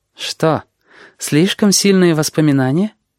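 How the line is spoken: Soft, smiling. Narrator (Russian): Мягко улыбнулась она

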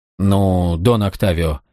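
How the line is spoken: Uncertain mumble. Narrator (Russian): неуверенно пробормотал он

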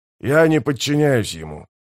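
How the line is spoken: Growled. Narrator (Russian): прорычал Скворец

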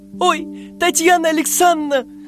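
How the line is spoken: Squeaking. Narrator (Russian): запищал Роберт

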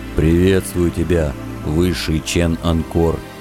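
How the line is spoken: Muffled grumble. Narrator (Russian): Глухо буркнул в бороду кузнец Каблан

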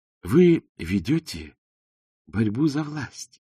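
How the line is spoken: Sweet little voice. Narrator (Russian): сладким голоском продолжал Коэн

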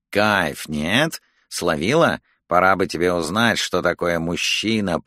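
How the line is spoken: Menacing mumble through teeth. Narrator (Russian): промычал сквозь зубы Макалистер

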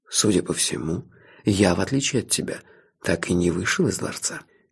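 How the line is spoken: Soft. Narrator (Russian): мягко сказал Карл

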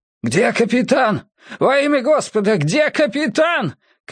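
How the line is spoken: Thin man shouting. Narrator (Russian): кричал тощий мужчина

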